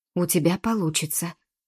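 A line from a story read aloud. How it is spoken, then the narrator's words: Supportive whisper. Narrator (Russian): поддерживал шепот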